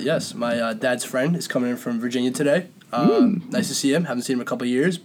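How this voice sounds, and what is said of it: Congested, under-the-weather voice. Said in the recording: “your voice sounds best when you're a little under the weather, as I am right now. The cold weather is messing with me ... I get congested every time”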